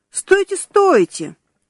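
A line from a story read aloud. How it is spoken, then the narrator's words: Exclaiming. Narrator (Russian): воскликнул администратор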